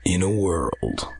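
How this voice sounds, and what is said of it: Deep dramatic movie trailer voice. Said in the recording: “you almost have that voice, that the movie trailer voice.”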